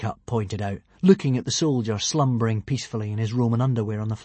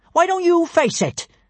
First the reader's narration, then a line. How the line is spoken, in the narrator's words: snapped Kamikaze